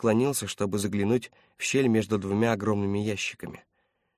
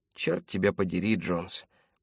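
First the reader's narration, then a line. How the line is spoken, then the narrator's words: Quiet mutter. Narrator (Russian): пробормотал он тихо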